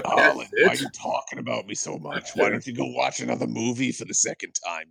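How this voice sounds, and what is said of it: Gruff East Coast father voice. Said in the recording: “I've given him this East Coast accent ... he's very hick ... my automatic go-to for gruff stepfather slash father voice”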